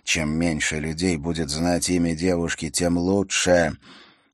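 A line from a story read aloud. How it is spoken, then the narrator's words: Quiet. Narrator (Russian): рейнджер тихо произнес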